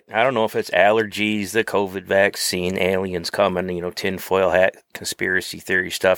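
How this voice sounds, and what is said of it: Rough, under-the-weather voice. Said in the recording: “forgive my voice a little bit ... Papa been a little under the weather recently”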